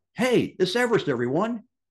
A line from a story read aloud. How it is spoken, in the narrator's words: Dutch called out